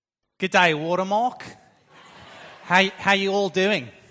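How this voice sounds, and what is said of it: Poor put-on Australian accent. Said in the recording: “that was my very, very poor attempt at an Australian accent”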